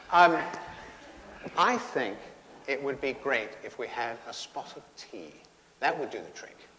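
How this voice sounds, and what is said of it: Put-on British accent. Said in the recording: “that's a great British accent”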